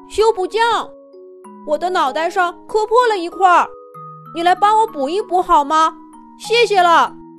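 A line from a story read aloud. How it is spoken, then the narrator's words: Shouting from afar. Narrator (Chinese): 他大老远的就嚷嚷起来了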